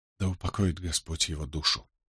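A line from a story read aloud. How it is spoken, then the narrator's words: Barely audible whisper. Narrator (Russian): едва слышно прошептала она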